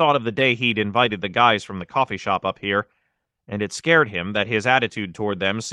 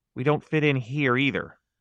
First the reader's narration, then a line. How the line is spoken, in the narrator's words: said